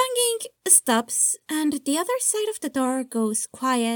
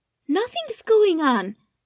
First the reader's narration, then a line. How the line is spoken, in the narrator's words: Lucy exclaimed